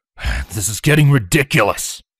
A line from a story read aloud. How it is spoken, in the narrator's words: Panting slightly